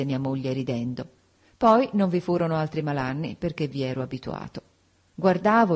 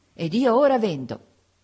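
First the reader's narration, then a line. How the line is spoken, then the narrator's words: Triumphant exclamation. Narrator (Italian): esclamai trionfalmente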